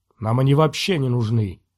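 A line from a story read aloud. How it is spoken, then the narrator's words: Sullen grumble. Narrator (Russian): угрюмо проворчал принц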